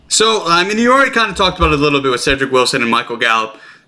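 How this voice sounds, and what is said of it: Slightly raspy voice. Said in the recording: “my voice is getting a little raspy.”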